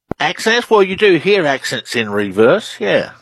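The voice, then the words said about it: Australian accent. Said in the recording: “Australian researcher. Love the accent.”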